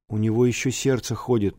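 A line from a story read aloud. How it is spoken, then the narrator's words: Timid announcement. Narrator (Russian): робко объявил Оська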